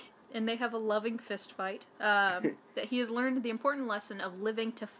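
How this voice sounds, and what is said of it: Usual voice. Nothing is said of it.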